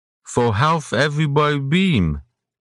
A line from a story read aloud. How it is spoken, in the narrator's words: Iridan slurred